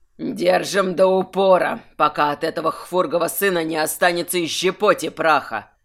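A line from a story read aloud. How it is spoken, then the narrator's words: Archmage growling. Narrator (Russian): зарычал архимаг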